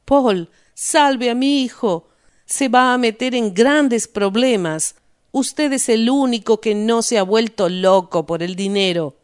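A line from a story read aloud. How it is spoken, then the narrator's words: Shouting. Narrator (Spanish): Se arrojó a los pies de Paul Rost y gritó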